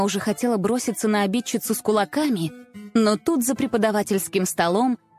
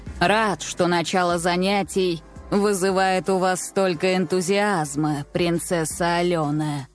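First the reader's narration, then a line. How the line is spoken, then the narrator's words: Creaky voice. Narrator (Russian): проскрипел профессор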